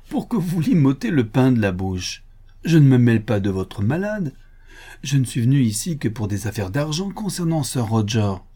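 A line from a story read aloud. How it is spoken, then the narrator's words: Laughing. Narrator (French): dit le docteur Thorne en riant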